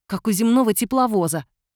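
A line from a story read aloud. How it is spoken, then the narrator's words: Snapping retort. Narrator (Russian): огрызнулся Юрик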